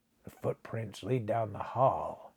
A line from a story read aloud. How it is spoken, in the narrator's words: he muttered